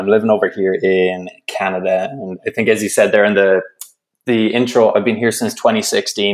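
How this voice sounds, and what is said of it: Irish accent. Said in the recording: “I detect a little bit of an accent in there ... I'm originally from Ireland ... my accent”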